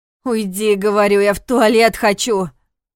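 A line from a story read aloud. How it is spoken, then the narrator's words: Barking. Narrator (Russian): Рявкнула Алина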